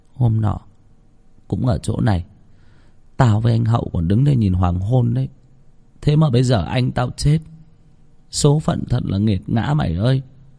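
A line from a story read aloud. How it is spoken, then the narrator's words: Girl's quiet reply. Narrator (Vietnamese): Cô bé lặng thinh ... khẽ đáp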